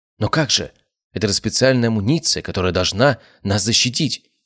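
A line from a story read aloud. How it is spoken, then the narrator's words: Exclaiming. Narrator (Russian): воскликнул офицер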